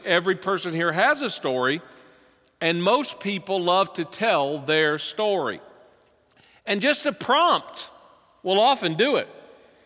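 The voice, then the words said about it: Southern US accent. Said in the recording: “with my accent, when I first moved here, people say, you're not from around here, are you? ... I know you're from the South.”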